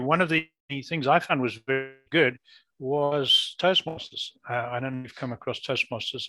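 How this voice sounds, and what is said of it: Non-North American accent. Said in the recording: “as you can hear from my voice, I'm not a born Canadian or North American. I lived most of my life in Africa.”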